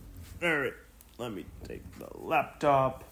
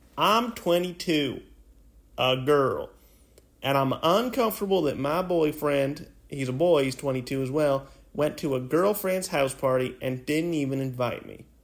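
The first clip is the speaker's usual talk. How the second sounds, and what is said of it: Put-on Southern accent. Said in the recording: “A southern accent.”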